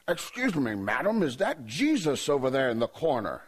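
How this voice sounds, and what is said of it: Put-on English accent. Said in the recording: “he's from England. We noticed it right away. Had that kind of, that accent”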